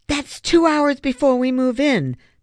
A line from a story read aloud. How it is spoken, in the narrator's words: the smaller boy cried